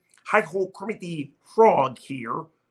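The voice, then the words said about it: Kermit the Frog impression. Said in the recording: “I sound like Kermit the Frog. I got a pretty good Kermit impression.”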